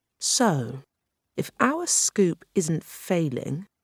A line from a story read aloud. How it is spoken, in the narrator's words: he said slowly, thinking aloud